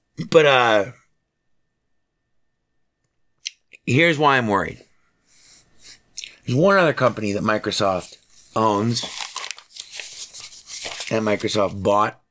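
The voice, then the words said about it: Hoarse, worn-out voice. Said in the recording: “I'm losing my voice from hollering.”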